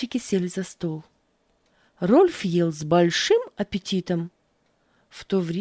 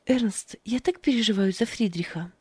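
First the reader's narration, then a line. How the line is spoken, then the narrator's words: Sigh. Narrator (Russian): вздохнула Фрида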